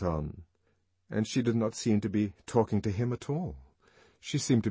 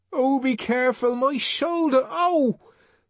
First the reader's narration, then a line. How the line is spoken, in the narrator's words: Linda cried out